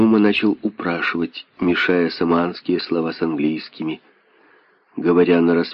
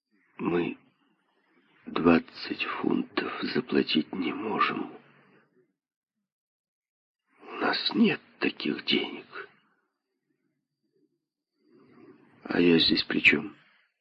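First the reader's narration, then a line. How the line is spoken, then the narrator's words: Choked voice. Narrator (Russian): сказал придушенным голосом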